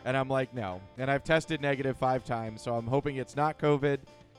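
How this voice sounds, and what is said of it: Congested, stuffy cold voice. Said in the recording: “I have a cold ... so I have a cold. I'm struggling through it. My voice is actually the best it's been in a couple days ... his throat is raw”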